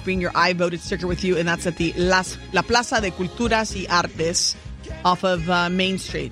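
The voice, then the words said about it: Put-on Latino accent. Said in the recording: “my Latino accent”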